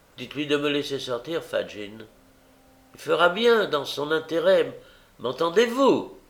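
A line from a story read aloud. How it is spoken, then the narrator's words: Exclaiming. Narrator (French): s'écria Nancy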